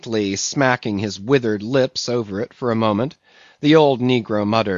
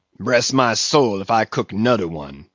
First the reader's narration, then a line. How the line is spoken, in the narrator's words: he growled, angrily